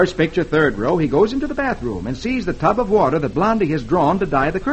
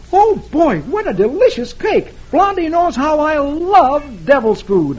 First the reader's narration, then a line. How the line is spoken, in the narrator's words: exclaiming